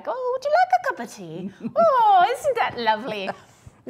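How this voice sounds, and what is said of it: Put-on English accent. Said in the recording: “if someone was here from England, I'd be talking like them ... speaking in an accent”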